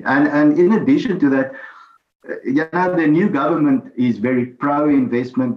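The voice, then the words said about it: Noticeable accent. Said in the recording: “There's that accent again.”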